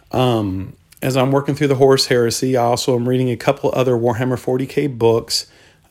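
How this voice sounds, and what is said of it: Hoarse, strained voice. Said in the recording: “apologize for my voice. It might be a little bit off from previous episodes... I started losing my voice”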